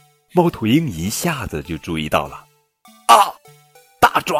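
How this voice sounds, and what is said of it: Usual voice. Nothing is said of it.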